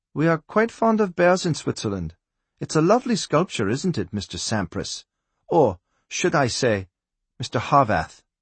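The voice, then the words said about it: Woman's voice with Swiss accent. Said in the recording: “a woman's voice. She spoke in English, but with a Swiss accent.”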